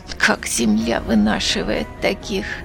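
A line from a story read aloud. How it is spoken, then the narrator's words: Reproachful, through gritted teeth. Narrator (Russian): сквозь зубы выплевывает с укором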